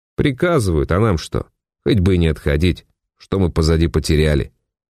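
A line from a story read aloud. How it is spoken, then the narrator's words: Displeased group grumbling. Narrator (Russian): недовольно заворчали они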